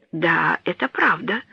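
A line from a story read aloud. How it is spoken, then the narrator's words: Thoughtful whisper. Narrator (Russian): прошептал, подумав Рене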